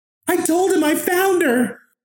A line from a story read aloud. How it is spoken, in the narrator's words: She was screaming